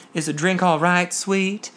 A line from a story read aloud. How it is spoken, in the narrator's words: he cooed